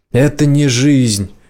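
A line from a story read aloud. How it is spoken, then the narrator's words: Shout. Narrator (Russian): крикнула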